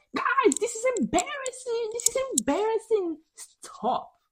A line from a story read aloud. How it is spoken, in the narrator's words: Lisa just has enough and she yells